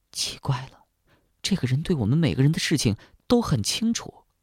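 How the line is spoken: Low voice. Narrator (Chinese): 星星低声对秦瑜说

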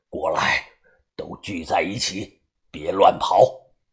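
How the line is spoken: Deep, low voice. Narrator (Chinese): 把头沉声的说道

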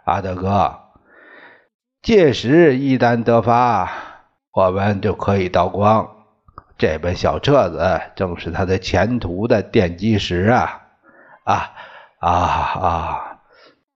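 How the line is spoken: Admiring voices together. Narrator (Chinese): 于洽清他们同时赞叹

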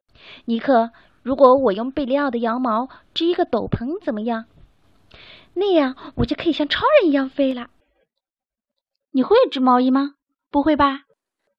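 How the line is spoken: Sighing exclamation. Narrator (Chinese): 皮克感叹道

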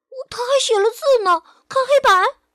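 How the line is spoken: Children shouting. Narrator (Chinese): 孩子们喊

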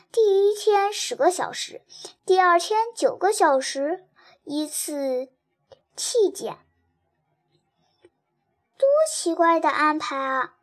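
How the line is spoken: Amazed exclamation. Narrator (Chinese): 爱丽丝惊叹道

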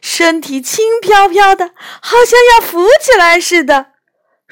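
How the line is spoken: Laughing. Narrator (Chinese): 一边笑一边说

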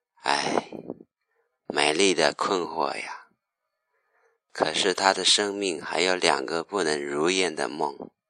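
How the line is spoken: Sighing. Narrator (Chinese): 夜神叹了一声

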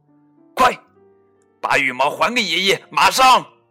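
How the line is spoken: Angry loud scolding. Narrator (Chinese): 他生气的大声斥责

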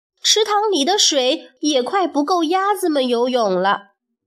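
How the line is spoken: Angry shout. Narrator (Chinese): 多蒂生气的大叫

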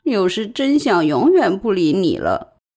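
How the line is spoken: Long sigh. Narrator (Chinese): 他长叹一声

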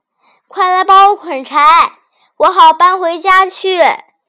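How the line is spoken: Middle-aged woman shouting. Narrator (Chinese): 一个中年妇人…大叫他的小叔子，说

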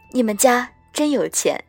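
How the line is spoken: Sighing, sincere. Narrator (Chinese): 我感慨一叹 真诚道

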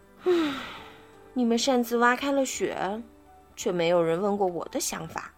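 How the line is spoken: Sad sighing. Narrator (Chinese): 伊尔叹了口气，伤心地说

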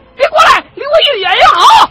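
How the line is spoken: Shouting. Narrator (Chinese): 齐恒 大喊了一声

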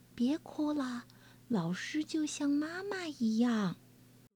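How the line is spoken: Quiet child's voice. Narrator (Chinese): 小胖墩儿 小声地说

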